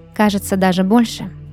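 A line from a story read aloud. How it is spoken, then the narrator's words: Plain. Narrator (Russian): ответила Вайлет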